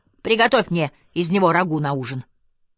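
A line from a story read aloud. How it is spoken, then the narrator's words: Shouted. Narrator (Russian): крикнув Розе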